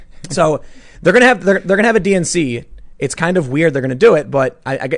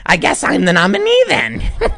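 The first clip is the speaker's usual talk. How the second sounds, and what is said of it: Impression of Hillary Clinton. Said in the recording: “I like your impression ... that's how I imagine she talks in private”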